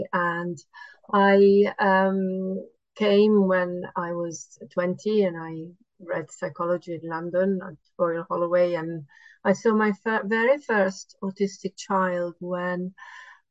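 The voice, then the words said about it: Italian accent. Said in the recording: “people might detect a bit of an accent ... I'm originally Italian.”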